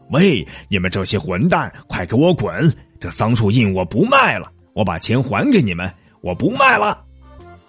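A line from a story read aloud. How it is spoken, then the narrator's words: Furious shout. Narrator (Chinese): 他再也忍不住，对他们大吼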